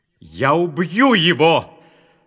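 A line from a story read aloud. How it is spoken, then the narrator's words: Shout. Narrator (Russian): закричал Исав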